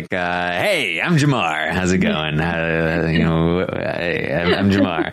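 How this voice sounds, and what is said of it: Imitates another person's voice. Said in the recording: “I like that impression. That's good.”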